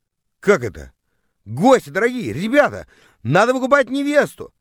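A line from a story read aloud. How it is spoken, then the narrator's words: Yelled to guests. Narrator (Russian): завопил я, обращаясь к гостям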